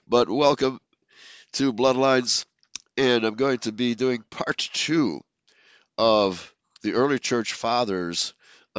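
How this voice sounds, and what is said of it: Low, rough voice from a cold. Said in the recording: “leghorn voice today, just coming out of a really bad cold”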